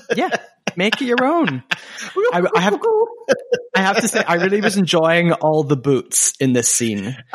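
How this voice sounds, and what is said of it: Mild Scottish accent. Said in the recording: “my Scottish accent ... I don't have the strongest Scottish accent in the world, but anytime I say a word that has a double O, like poor food, boots, mood, good, it sounds very rude. Scottish.”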